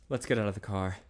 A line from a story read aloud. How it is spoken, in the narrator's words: Ted said breathlessly